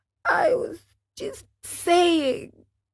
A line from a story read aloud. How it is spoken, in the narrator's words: whined the marionette in a whisper